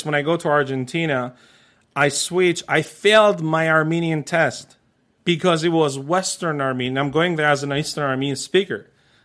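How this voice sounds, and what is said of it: Armenian accent. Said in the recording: “the biggest accent you probably have is an Armenian accent ... yes”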